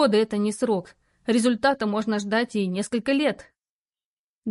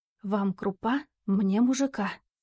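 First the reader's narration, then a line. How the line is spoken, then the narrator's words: Soft whisper. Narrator (Russian): тихонько прошептала она над пригоршней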